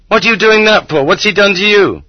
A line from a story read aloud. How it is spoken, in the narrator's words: The women shrieked